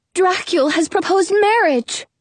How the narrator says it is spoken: she cries

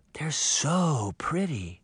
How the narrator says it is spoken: she whispered

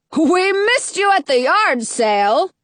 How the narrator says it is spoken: the king says in a booming voice

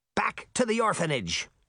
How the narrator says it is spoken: Smirt snapped

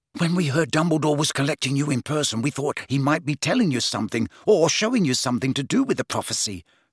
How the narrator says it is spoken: said Ron eagerly

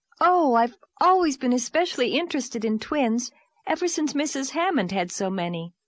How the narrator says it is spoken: said Anne eagerly

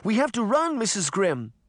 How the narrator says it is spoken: Sabrina cried

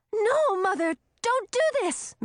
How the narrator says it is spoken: Millie exclaimed in horror

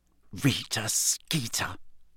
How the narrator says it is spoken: she muttered finally

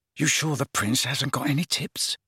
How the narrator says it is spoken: Ron muttered to Harry

